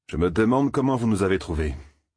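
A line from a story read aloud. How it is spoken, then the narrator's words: Plain. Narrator (French): dit l'âne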